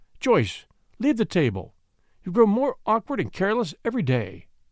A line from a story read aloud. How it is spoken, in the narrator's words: Grandmother Marshall said sharply